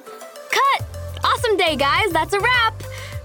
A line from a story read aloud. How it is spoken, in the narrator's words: Kim interrupted us to yell